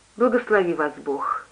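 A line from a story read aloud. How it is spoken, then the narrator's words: Quiet. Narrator (Russian): тихо сказала она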